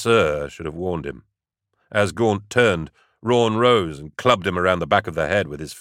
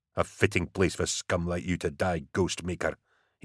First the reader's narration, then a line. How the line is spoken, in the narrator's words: murmured